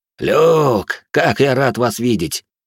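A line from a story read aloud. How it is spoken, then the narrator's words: Joyful. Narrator (Russian): радостно произнес Бриан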